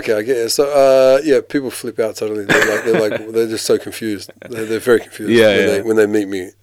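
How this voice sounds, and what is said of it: Australian accent. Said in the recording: “where did that Australian accent come from? ... the Australian accent.”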